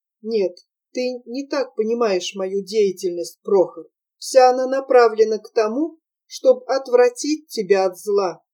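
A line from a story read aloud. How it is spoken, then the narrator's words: Quiet. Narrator (Russian): сказала тихо Нина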